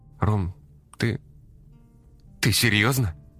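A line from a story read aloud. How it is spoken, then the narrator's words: Strained, forced out. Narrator (Russian): Наконец выдавила она из себя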